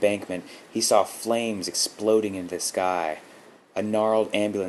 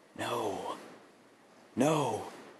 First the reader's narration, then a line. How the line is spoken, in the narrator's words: Mark gasped